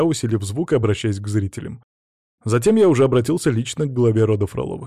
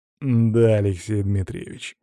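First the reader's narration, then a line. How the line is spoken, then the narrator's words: Through gritted teeth. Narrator (Russian): сквозь зубы произнес мужчина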